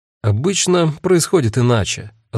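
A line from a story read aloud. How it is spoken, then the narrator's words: Said after laughing. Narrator (Russian): отсмеявшись, сказала Агата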